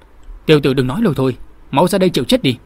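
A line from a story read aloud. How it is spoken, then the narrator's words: Angry challenge. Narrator (Vietnamese): Lục Đạt tức giận đáp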